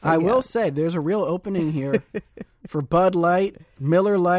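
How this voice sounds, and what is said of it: Usual voice. Nothing is said of it.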